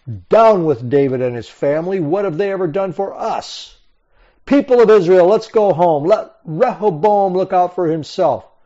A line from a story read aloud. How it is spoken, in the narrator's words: When the people saw that the king would not listen to them, they shouted